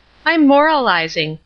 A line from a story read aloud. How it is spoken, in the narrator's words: Marion said, laughing